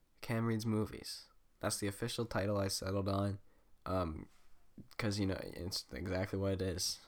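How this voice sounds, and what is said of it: Sick, weird-sounding voice. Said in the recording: “I'm really sick today ... my voice is probably gonna sound really weird, and I'm definitely gonna be coughing a lot”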